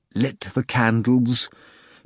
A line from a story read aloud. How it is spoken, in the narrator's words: Pilate said through clenched teeth, matching the prisoner's tone